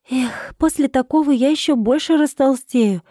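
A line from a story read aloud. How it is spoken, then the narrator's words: Sighing. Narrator (Russian): вздохнула Рида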